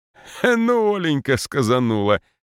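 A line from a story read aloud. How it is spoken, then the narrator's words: Father laughing loudly. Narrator (Russian): захохотал отец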